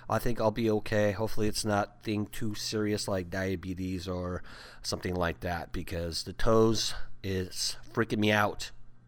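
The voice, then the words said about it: Raspy, strained voice. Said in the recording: “I'm losing my voice too ... me and my raspy voice”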